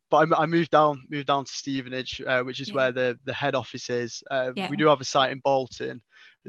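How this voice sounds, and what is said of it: Northwest English accent. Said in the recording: “originally I'm from up north, in the northwest. You can probably tell by my accent.”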